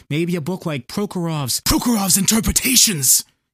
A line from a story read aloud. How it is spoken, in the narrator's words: Imbert wheezed